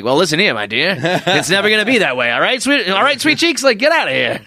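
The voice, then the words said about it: Put-on mid-Atlantic accent. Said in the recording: “mid-Atlantic accent”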